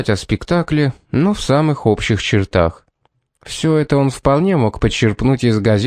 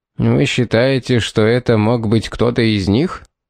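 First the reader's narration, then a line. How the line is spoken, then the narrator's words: Mocking question. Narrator (Russian): насмешливо спросил он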